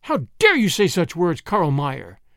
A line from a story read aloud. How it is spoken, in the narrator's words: she exclaimed